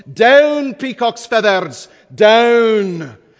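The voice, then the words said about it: Imitated Scottish accent. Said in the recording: “in that great Scottish accent,... That's pretty good, huh?”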